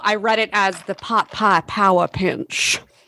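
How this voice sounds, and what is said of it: Put-on Southern accent. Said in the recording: “In a southern accent.”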